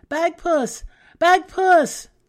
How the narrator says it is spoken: she cried out

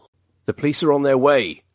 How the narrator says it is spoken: Daniel bellowed, hoping his threat was enough to perturb the maniac

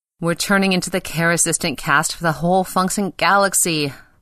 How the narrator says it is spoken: moaned Pele

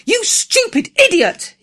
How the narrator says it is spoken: cried

